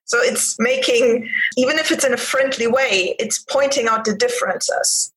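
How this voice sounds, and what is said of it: Non-native foreign accent. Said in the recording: “as soon as I open my mouth, people hear my accent ... oh, but you're not from here”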